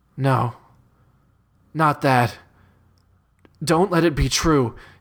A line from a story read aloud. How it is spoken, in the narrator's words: he pleads to himself